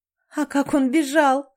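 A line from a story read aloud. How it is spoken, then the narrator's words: Laughing uproariously. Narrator (Russian): смеялась Тамрета, закатываясь хохотом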